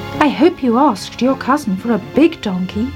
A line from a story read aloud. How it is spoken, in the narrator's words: she said